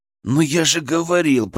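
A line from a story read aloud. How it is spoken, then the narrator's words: Hissed. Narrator (Russian): прошипел я Кристине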